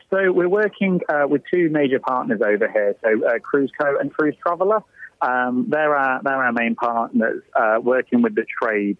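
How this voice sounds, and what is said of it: Very British accent. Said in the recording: “You've got a very British accent”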